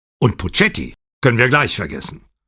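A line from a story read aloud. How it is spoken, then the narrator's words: Angry. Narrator (German): sagte Pater zornig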